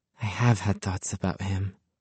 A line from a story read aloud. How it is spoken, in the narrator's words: she murmured